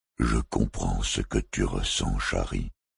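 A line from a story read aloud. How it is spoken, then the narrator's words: Soft murmur. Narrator (French): murmura-t-il d'une voix douce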